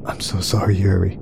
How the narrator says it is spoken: whispered

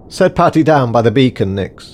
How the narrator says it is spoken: shouted Davison

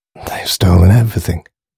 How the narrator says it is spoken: he croaked in a hoarse whisper

